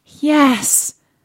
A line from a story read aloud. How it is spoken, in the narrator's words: cried Cinderella with a great sigh